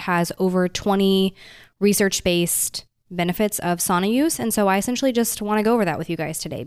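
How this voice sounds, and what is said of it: Sick, congested-sounding voice. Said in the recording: “I'm sure you guys can tell by my voice, maybe if you've ever heard my voice before, it does not normally sound like this. I'm kind of getting over a little bit of a cold.”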